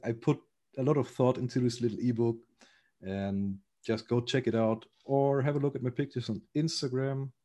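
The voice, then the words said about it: German-accented English. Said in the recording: “because I'm a German, I guess I have some form of accent in there”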